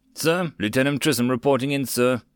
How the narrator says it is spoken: replied stiffly

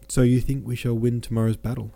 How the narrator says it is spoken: asked Pierre

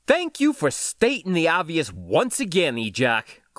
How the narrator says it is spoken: Chris snapped

